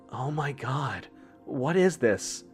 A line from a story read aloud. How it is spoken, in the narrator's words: Isha whisper breathlessly through the radio